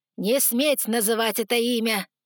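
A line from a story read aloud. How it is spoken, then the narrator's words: Roaring. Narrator (Russian): взревел Артас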